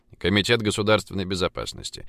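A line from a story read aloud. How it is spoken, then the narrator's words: Dry informing. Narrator (Russian): сухо проинформировал Пургин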